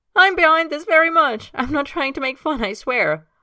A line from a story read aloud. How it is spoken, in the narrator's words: Himes says, still laughing as he speaks